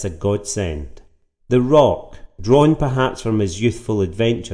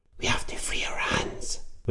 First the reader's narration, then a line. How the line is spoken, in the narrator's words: whispered Tom